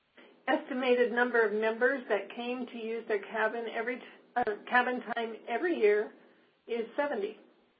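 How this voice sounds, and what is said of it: Hoarse, fading voice. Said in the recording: “I'm losing my voice here.”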